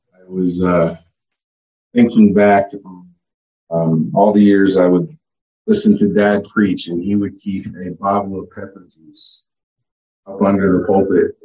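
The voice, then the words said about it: Strained, failing voice. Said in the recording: “I am losing my voice.”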